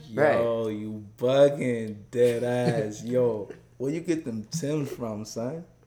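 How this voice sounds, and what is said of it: Put-on New York accent. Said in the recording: “I could probably do a New York accent.”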